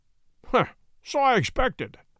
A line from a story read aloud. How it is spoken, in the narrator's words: said Holmes, chuckling